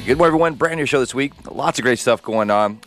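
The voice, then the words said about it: Hoarse, partly lost voice. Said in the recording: “I lose my voice a little bit”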